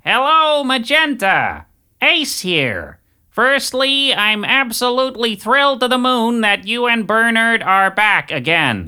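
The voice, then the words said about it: David Lynch impression. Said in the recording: “in the voice of David Lynch”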